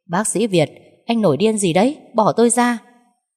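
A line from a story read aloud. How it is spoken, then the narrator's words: Frantic screaming. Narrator (Vietnamese): Hà Phương gào lên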